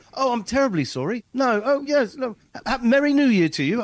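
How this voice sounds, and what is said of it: Put-on British accent. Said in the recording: “talking in a British accent”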